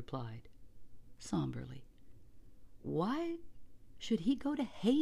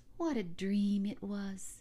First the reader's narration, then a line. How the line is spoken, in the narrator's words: Kissman sighed